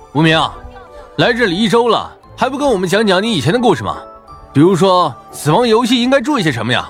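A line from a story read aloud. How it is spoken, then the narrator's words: Shouting. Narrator (Chinese): 陈破军这么一喊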